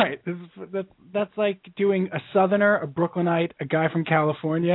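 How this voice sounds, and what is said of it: Usual voice. Nothing is said of it.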